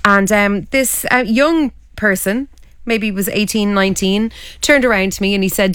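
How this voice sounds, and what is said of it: Hoarse voice. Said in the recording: “I think that's why I'm still a bit hoarse.”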